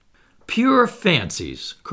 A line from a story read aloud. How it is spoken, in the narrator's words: cried the unknown